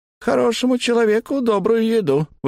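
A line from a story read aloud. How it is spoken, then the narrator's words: High-pitched reply. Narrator (Russian): высоким голосом ответил Боб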